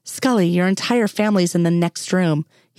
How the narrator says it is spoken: he explained

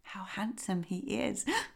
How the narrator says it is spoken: whispered Thumbelina to the swallow

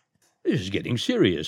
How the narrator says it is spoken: muttered the doctor

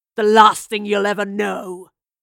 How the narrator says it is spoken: he snarled

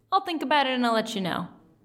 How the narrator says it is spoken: I say, coolly

